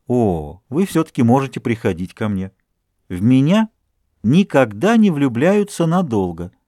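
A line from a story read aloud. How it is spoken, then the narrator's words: Calm, indifferent, smiling. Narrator (Russian): Продолжая улыбаться своей безразличной улыбкой, она спокойно ответила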